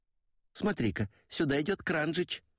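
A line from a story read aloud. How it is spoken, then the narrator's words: Exclaiming. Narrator (Russian): воскликнула Джейн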